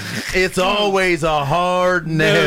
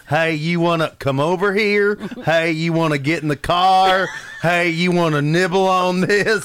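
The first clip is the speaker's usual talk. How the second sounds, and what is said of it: Put-on Southern US accent. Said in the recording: “he was from the south ... a foreign accent like that”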